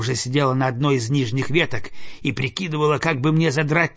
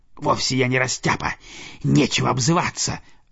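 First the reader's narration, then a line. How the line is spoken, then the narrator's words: Snapping retort. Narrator (Russian): огрызнулась куница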